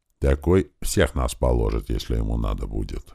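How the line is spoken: Quiet, prickly speaker. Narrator (Russian): негромко сказал колючий

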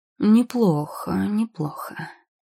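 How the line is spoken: Old man drawling. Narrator (Russian): протянул, наконец, старик

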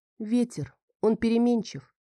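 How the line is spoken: Sighing. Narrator (Russian): Я вздохнула и произнесла

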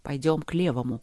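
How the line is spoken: Quiet. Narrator (Russian): тихо сказал Трот

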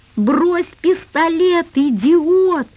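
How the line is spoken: Frantic, distorted scream. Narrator (Russian): не своим голосом закричала Наташка

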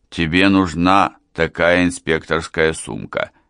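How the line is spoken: Plain. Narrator (Russian): сказал он

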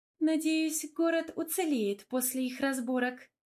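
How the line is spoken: Laughing. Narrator (Russian): рассмеялась Эльвира

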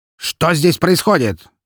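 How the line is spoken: Barking shout. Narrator (Russian): рявкнул Распутин

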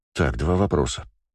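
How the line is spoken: Low voice. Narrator (Russian): сказал я вполголоса

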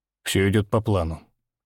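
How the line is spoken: Calm reply. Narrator (Russian): отвечает спокойно

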